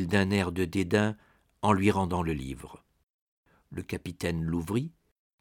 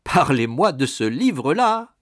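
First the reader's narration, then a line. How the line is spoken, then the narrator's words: Captain's laughing exclamation. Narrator (French): s'écria le capitaine en riant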